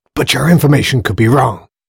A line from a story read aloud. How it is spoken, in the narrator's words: hissed Spears in agitation